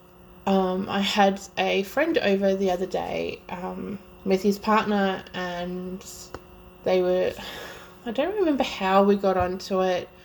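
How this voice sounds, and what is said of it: Strong Australian accent. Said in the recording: “my extremely horrible accent, I'm Australian and from Melbourne, Victoria”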